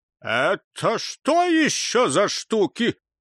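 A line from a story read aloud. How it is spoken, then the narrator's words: Shouted. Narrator (Russian): крикнул папа Фиттих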